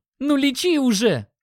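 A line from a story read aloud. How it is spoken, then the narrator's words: Shouted. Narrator (Russian): крикнул Димон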